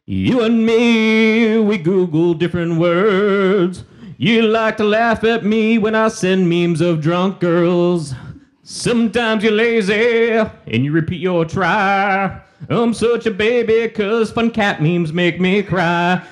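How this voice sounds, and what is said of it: Put-on American singing accent. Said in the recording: “my American sing accent”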